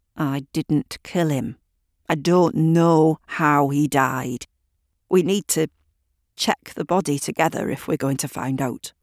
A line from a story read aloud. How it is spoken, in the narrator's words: James began through gritted teeth